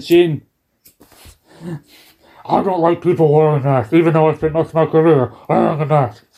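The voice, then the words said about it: Wrestler character voice impression. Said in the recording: “my Kane impression ... Kane sometimes takes over.”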